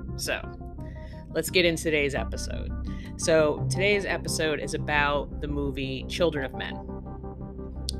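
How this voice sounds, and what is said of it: Voice sounds a little funky. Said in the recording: “we have like yellow pollen, green pollen, red pollen, white pollen ... my voice is a little funky. Not sick”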